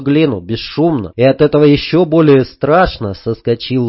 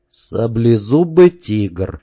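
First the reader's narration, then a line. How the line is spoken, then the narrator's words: Calm inner thought. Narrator (Russian): спокойно подумал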